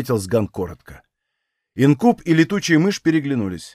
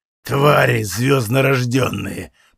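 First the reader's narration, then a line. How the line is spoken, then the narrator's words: Growl. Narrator (Russian): прорычал Сган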